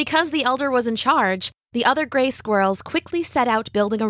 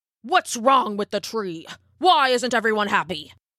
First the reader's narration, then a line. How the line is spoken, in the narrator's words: snapped the elder